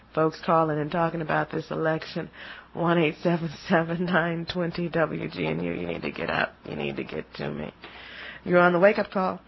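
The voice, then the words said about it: Slightly hoarse voice. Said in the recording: “My voice is a little hoarse this morning”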